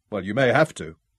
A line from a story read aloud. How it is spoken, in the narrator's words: Ralph told him dryly